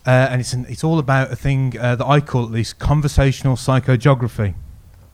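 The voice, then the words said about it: Birmingham English accent. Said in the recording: “You might be able to tell from my accent that I'm not an Oxford native ... I'm from Birmingham, so apologies if my vowels are a little bit indecipherable”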